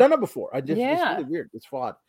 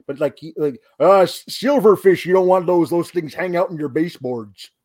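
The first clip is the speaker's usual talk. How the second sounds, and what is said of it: Imitates another person's voice. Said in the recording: “sound as though it should be coming out of the mouth of Jesse the Body Ventura ... That's pretty good”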